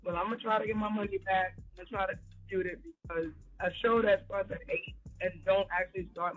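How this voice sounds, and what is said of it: Tired-sounding voice. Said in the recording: “That's why I sound tired.”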